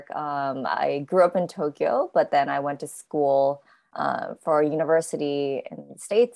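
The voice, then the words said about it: Strong American accent. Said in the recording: “this pretty strong American accent ... you're not sounding so cockney”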